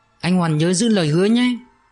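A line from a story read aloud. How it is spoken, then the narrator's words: Tearful smile. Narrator (Vietnamese): Thúy khéo léo chấm nhanh giọt nước mắt, mỉm cười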